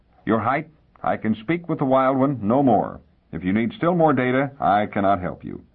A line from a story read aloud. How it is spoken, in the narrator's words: Devian said firmly